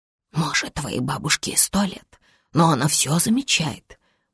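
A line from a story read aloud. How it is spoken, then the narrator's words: Whisper. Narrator (Russian): прошептала Самина Вивеку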